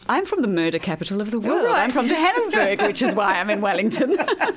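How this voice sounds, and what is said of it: South African accent. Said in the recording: “Hearing your lovely accent”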